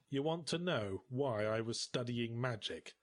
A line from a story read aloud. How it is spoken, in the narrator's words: I said